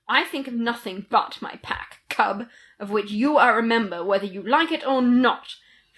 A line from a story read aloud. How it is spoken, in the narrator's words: Fenrir answered sharply